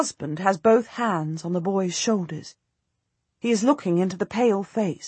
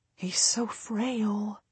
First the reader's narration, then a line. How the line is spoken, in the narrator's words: I whisper